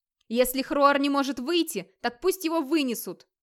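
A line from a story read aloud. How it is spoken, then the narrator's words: Shout. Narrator (Russian): крикнул Скёльд за ворота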